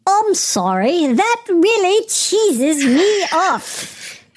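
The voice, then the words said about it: Poor put-on British accent. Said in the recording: “do it again, but in a British accent? ... My British accent so sucks.”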